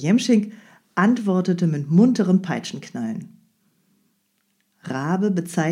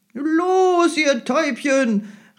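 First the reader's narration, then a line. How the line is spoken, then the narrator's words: Coachman calling out. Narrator (German): rief der Jemschik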